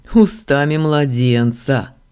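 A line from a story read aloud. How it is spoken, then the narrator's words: Snort from behind. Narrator (Russian): хмыкнул голос за моей спиной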